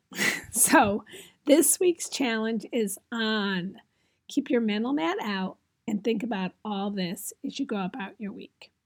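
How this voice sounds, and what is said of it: Strained, failing voice. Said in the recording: “as you can tell, my voice is going”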